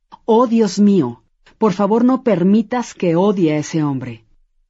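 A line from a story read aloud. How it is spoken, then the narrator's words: Aloud, consumed by hatred. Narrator (Spanish): sintió cómo el odio y rencor se apoderaban de su ser y dijo en voz alta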